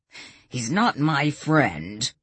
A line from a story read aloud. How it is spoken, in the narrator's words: Morris snapped